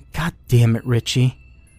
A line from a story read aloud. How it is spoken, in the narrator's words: Rose grunted